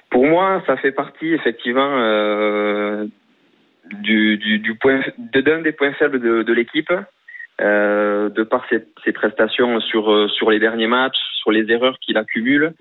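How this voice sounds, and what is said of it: Strong regional French accent. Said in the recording (French): “un bel accent, là.”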